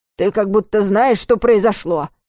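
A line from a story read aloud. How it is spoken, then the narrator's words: Breathless grumble. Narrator (Russian): пробурчал Варус, жадно вдыхая свежий воздух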